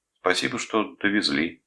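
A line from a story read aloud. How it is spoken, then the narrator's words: Even tone. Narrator (Russian): сказал он ровным тоном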